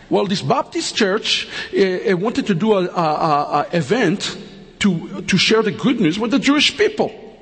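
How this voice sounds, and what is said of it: Strong foreign accent. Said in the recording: “I'm speaking with an accent now. Maybe it's very difficult to understand my accent”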